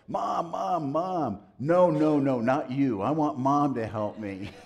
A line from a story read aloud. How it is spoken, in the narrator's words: she yelled